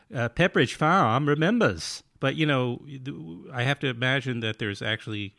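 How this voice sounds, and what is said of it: Put-on New England accent. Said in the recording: “the New England accent there is, you know, the very cliche... That's my New England accent.... Oh, so good.”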